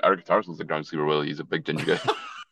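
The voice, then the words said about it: Scottish accent. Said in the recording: “if you hear a Scottish accent”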